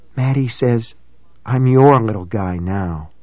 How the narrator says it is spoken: she had whispered

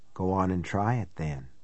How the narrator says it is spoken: a voice whispered

